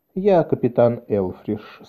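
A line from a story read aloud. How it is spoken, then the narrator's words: Soft. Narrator (Russian): сказал он мягко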